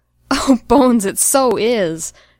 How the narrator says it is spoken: Jim was still laughing around the words

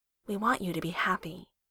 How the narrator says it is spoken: she says, softly, but with weight behind it

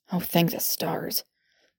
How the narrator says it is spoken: Thorn muttered

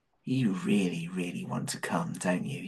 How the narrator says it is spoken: he whispered in John's ear

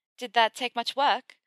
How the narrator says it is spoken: Hermione asked with a laugh

